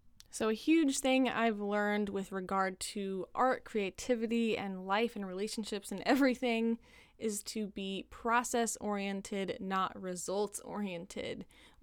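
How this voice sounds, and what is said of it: Dry, tired-sounding voice. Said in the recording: “My voice is just getting dry because we're nearing the end here.”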